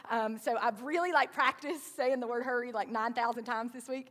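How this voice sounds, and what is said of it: Southern American accent. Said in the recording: “my southern accent is going to say hairy sometimes instead of hurry”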